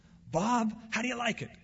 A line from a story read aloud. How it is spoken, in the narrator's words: exclaimed a smiling, energized Rusty